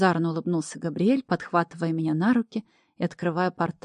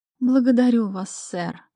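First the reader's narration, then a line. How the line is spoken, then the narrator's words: Purring, matching tone. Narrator (Russian): в тон ему промурлыкала я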